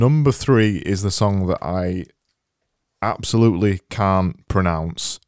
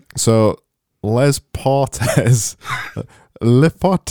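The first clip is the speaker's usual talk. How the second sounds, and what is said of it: Mock Yorkshire-French accent. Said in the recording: “I'm going to try it in my best Yorkshire/French accent.”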